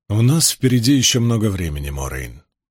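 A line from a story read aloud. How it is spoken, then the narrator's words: Soft, gentle. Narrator (Russian): мягко сказал Ранд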